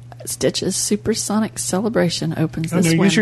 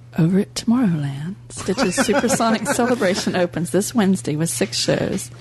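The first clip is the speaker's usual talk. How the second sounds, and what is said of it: Sexy, seductive reading voice. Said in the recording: “use your sexy voice”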